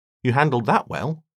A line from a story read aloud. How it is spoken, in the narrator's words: said Caleb